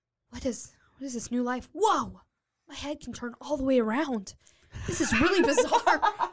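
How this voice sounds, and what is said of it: Character voice for Owlman. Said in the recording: “You got to do his voice.”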